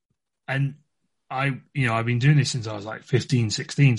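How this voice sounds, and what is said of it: English accent. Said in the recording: “I'm from England ... To tell by the accent.”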